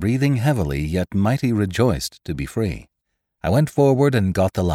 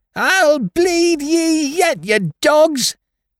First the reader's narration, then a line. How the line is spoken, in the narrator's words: he screamed shrilly